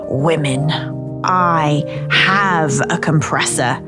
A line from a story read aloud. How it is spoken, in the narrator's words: he said painfully slowly, as if she were an imbecile